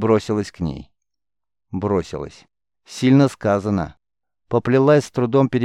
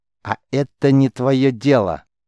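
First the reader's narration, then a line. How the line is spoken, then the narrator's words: Angry woman. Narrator (Russian): зло бросила воительница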